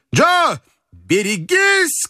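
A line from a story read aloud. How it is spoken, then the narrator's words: Loud booming shout. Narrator (Russian): кричит доктор зычным голосом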